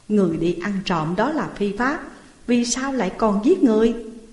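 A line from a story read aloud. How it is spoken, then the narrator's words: Plain. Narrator (Vietnamese): Bao Công hỏi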